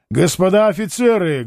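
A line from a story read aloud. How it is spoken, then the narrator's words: Said loudly. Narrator (Russian): громко сказал Меншиков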